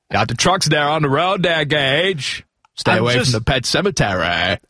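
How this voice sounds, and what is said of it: Imitates another person's voice. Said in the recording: “your Gage impression ... The Fred Gwynn impersonation?”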